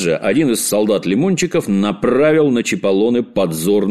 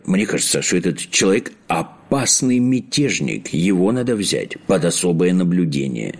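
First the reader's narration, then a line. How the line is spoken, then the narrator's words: Whispered into ear. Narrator (Russian): прошептал на ухо принцу старший камергер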